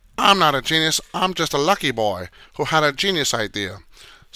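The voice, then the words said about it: Mock Asian accent, not very good. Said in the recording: “that's my mock Asian accent. Not too great”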